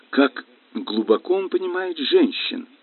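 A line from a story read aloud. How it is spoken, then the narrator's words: Trembling mutter. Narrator (Russian): дрожащим голосом пробормотала я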